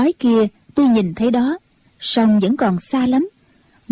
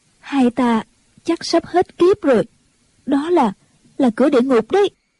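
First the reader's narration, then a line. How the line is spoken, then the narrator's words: Trembling voice. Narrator (Vietnamese): Ông Tố Tố run run nói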